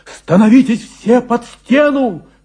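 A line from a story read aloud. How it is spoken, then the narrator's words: Shouting. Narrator (Russian): кричал учитель всем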